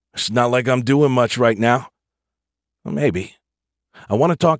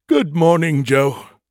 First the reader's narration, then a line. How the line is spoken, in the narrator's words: Skippy said through a yawn